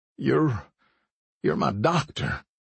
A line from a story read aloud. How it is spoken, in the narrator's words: he said feebly